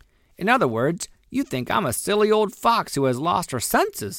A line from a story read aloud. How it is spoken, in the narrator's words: said Granny sharply